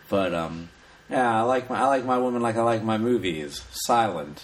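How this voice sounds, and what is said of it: Old-timey 1920s voice. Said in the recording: “I'll try to do it in my 1920s voice”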